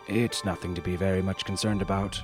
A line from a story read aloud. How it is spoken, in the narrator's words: he said in his crisp subcontinental accent